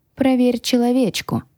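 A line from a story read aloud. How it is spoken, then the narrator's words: Quiet. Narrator (Russian): тихо произнес я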